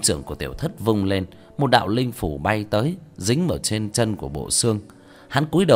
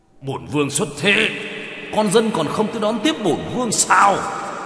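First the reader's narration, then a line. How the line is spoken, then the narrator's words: Sudden angry shout. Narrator (Vietnamese): chợt giận dữ hét lên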